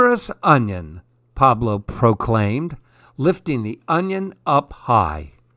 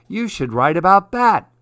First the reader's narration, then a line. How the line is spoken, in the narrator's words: Matilda laughed